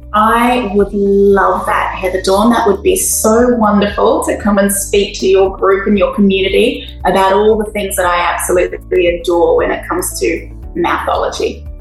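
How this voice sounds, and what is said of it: Australian accent. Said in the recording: “you have such a lovely accent ... we were just drenched in this beautiful accent ... Aussie”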